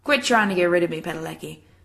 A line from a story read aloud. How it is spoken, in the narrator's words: Jensen says roughly, trying for a smile